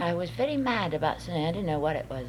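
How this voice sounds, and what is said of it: Boston accent. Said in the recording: “You sound like you're from a foreign country most of the time ... Boston accent ... the kind that I talk. But we both sound like foreigners.”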